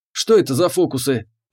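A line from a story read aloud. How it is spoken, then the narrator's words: Grumbling. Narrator (Russian): проворчал Семен Аркадьевич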